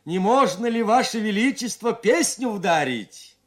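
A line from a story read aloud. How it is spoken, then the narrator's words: Loud question. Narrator (Russian): Чика громко спросил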